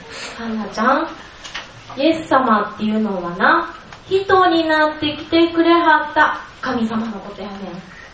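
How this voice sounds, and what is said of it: Kansai dialect Japanese. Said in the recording (Japanese): “関西弁です”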